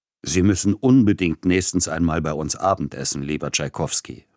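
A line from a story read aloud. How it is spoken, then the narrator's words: Plain. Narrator (German): sagte Padilla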